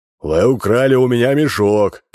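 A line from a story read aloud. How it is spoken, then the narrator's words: Shout. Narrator (Russian): кричал он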